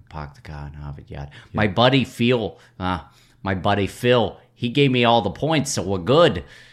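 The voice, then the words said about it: Put-on Boston accent. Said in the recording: “I got to get my Boston accent here.”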